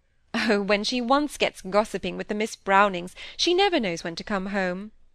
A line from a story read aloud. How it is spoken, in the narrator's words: said Mrs